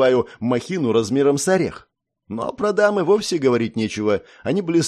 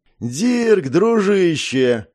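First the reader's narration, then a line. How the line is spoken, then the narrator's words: Baritone voice. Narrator (Russian): раздался чей-то баритон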